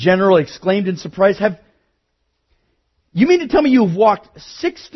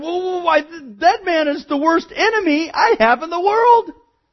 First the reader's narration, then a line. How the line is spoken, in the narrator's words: Miller cried